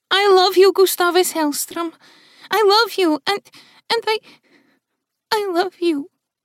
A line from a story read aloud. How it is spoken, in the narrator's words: Melody said, her voice faltering as he continued to meet her gaze